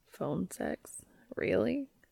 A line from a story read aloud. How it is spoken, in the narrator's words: Cass said timidly